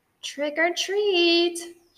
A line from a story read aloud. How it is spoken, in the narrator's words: shouted Mr